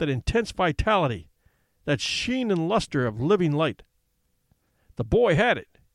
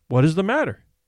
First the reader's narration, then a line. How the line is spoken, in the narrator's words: asked Miss Carruthers